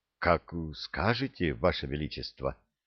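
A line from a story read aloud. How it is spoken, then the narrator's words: Confused young man mumbling. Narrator (Russian): растерянно пробормотал юноша, не понимая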